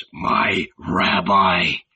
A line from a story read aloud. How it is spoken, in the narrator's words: whispered with unexpected tenderness